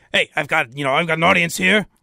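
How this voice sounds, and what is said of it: Imitates another person's voice. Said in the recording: “that's my Callahan impression.”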